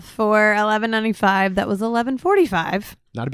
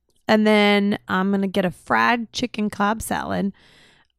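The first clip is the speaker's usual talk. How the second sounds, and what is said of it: Thick Southern accent on words. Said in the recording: “every time you say fried, you say it in like a thick Southern accent ... That's you with Southern words”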